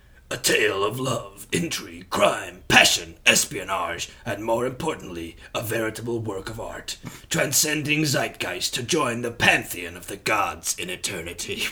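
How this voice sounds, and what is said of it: Dramatic film trailer voice. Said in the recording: “like a cinema? ... Film trailer voice.”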